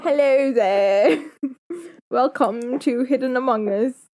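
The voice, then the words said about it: Poor put-on British accent. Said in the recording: “You speak in a British accent ... that's a terrible accent ... That's a terrible accent.”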